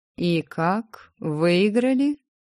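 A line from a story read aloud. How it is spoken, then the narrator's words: Lazy drawl. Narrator (Russian): протянул лениво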